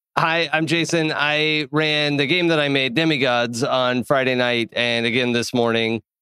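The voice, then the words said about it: Hoarse, fading voice. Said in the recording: “my voice is going out a little bit ... Your voice is going out”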